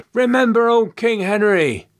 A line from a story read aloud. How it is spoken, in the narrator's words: Someone cried out from the crowd